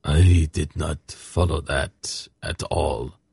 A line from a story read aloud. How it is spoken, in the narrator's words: Sakath murmured to Geryon